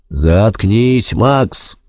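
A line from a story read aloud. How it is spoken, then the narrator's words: Growl. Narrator (Russian): прорычал Альбин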